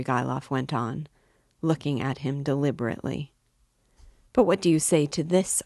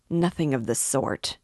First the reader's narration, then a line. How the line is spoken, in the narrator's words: Raskolnikov insisted irritably